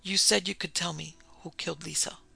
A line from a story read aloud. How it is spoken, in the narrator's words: He said thickly